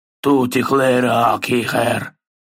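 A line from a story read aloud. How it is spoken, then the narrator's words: Troll grumbling. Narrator (Russian): проворчал тролль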